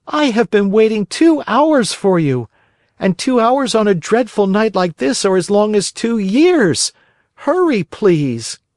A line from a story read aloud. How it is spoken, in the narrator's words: cried Pinocchio from the street